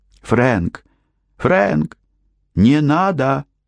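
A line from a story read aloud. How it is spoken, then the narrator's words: Exclaimed. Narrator (Russian): воскликнула она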